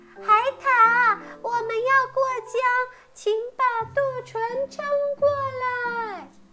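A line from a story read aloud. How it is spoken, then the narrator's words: Loud shout. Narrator (Chinese): 松鼠大声喊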